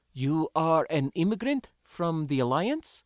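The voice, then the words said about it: Foreign-accented English. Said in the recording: “switching verbal gears instantly, though with an accent.”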